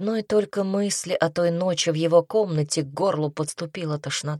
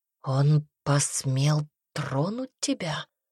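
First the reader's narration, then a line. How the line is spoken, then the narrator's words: Whisper. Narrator (Russian): прошептал Пайер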